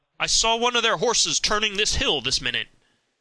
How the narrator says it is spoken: he cried aloud

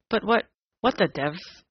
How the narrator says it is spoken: muttered Ryder

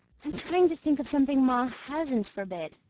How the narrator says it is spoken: she answered with a sigh

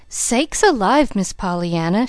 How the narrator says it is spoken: she gasped

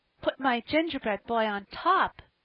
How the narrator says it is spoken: cried Phronsie

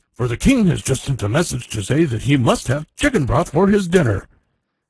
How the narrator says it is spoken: he exclaimed

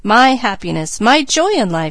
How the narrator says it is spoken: she exclaimed

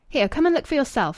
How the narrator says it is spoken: he exclaimed with furious pugnacity

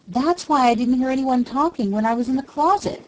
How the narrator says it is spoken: she cried, her voice almost hysterical in its vehemence

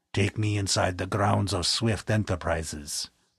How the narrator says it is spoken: commanded in a foreign accent

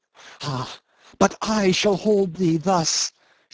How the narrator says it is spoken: she cried

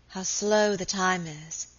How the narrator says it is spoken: said wearily

